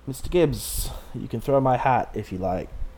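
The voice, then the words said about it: Deliberately bad accent in character voice. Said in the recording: “That's a terrible accent.”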